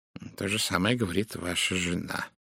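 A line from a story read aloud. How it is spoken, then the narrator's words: Quiet. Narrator (Russian): тихо произнес Пуаро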